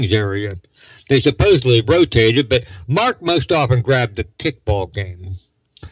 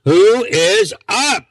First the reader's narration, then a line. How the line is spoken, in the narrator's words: Sister hollered out